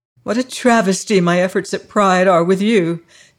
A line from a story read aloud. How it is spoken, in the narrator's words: cried